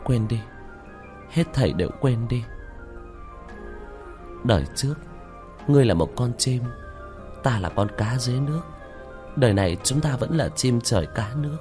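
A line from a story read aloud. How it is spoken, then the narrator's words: Muttering. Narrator (Vietnamese): Nam Ly Nguyệt trong phút chốc lẩm bẩm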